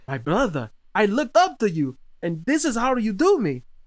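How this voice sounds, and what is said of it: Put-on Russian accent. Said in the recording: “I gave him like a Russian accent”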